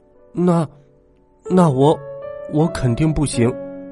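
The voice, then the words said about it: Quiet, hesitant, near-tearful voice. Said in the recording (Chinese): “小声的说，眼泪都快掉下来了”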